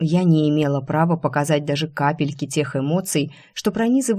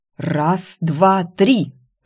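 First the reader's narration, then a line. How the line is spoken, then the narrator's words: Growl. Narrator (Russian): рыкнула я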